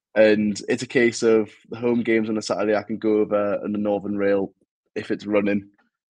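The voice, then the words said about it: Newcastle (Geordie) accent. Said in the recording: “you can probably tell from my accent, I'm not from Hull. I'm actually from Newcastle”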